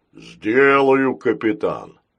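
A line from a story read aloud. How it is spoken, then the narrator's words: Deep bass robot voice. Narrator (Russian): пробасил рогатый робот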